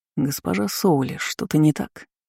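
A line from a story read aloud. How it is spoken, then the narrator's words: Quiet question. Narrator (Russian): тихо спросил Райлен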